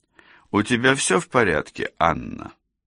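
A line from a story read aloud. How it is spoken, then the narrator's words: Meaningful tone. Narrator (Russian): спросил он многозначительным тоном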